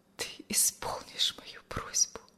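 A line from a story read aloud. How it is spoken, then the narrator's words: Whispered. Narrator (Russian): шепнула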